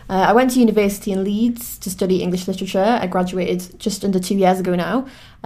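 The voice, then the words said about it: Newcastle Geordie accent. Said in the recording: “I'm from Newcastle, as I'm sure you can probably tell from my accent.”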